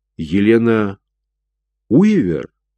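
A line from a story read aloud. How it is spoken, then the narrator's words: Strangely uncertain voice. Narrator (Russian): Ее голос звучал до странности неуверенно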